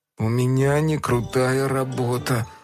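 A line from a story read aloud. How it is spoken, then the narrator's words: Sigh. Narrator (Russian): вздохнул Фил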